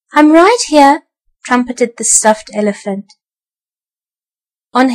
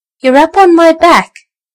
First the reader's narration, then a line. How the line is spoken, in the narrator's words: laughed the jolly elephant toy